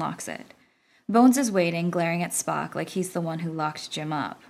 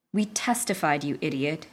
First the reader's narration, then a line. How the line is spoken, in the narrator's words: Bones groans